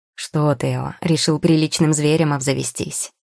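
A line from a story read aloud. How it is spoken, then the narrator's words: Wry snort. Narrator (Russian): хмыкнул он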